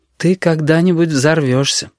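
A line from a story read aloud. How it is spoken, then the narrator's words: Sad. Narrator (Russian): печально предрекла Анда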